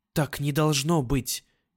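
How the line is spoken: Fervent whisper. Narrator (Russian): девушка принялась горячо шептать

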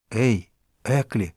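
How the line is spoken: Secretive whisper. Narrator (Russian): сказал я шепотом, чтобы Стрэдлейтер не услыхал

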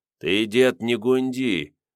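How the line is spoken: Sinister warning. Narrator (Russian): зловещим голосом предупредил Лиходей

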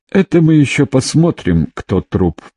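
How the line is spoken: Uncertain reply. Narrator (Russian): произнес Бурый в ответ, но как-то неуверенно

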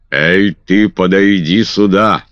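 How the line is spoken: Thunderous shout. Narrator (Russian): закричал он громовым голосом

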